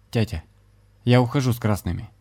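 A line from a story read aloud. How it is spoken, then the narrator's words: Firm voice. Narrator (Russian): младший твердым голосом сказал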